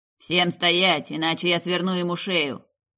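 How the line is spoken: Barked threat. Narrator (Russian): рявкнул Архонт

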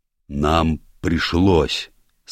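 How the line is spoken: Surprisingly deep voice, small man. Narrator (Russian): сказал маленький человечек удивительно низким голосом

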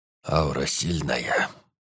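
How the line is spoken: Old man's husky bass. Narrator (Russian): вдруг произнес старик чуть хрипловатым басом

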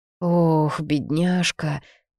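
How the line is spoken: Pitying moan. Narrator (Russian): жалостливо простонала Анна

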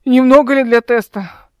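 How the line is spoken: Hoarse voice. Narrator (Russian): хрипло произнесла

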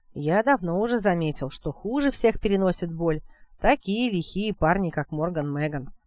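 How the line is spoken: Plain. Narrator (Russian): сказал он

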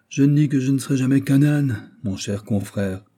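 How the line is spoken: Sad reply, heavy sigh. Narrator (French): répondit La Fontaine avec un gros soupir et les yeux tout bouffis de tristesse

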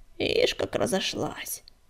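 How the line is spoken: Reproachful grumble. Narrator (Russian): укоризненно проворчала рябинка

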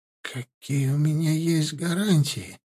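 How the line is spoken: Quiet, barely audible question. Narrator (Russian): спросил тихонько, едва слышно Нуцкий

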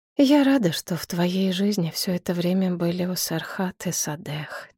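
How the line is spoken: Quiet, priestess. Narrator (Russian): тихо сказала жрица

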